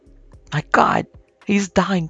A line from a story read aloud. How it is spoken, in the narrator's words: cried Monkhouse Lee, distractedly